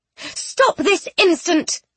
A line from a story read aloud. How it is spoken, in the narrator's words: Penelope cried